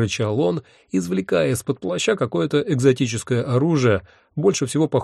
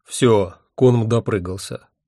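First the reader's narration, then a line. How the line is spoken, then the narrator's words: Gloomy victor. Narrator (Russian): мрачно сказал победитель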